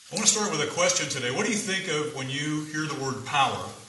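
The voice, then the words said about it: Projecting teacher voice. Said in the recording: “I'll use my teacher voice.”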